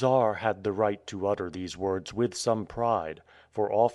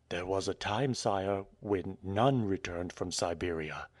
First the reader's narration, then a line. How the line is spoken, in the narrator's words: replied the chief of police, adding, and slightly lowering his voice